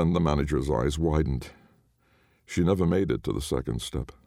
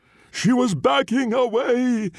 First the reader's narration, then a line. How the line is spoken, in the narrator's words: Jason sobbed